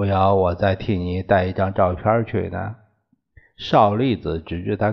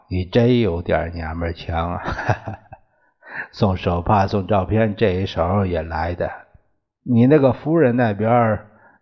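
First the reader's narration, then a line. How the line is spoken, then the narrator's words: Hearty laughter. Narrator (Chinese): 校长，邵栗子……哈哈大笑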